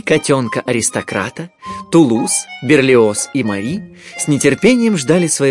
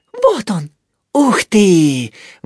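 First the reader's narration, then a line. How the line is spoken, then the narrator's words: Admiring breathless exclamation. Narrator (Russian): восхищенно выдохнул Тулуз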